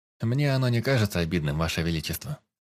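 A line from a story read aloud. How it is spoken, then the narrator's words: Calm reply. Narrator (Russian): спокойно отозвался я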